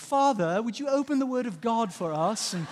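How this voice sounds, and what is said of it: Put-on British accent. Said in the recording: “they do like this whole British accent thing. It's weird.”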